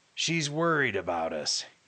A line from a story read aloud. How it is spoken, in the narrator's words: growled